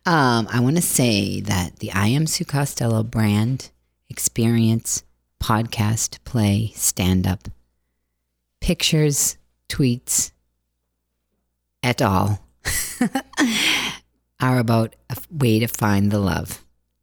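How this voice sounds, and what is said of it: Calm, professional voice with Boston accent. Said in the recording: “in my very professional, calm voice with my Boston accent”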